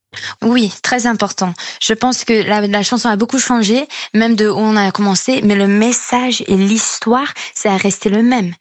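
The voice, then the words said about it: Slight American accent in French. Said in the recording (French): “On l'entend un petit peu à votre accent, vous êtes franco-américaine”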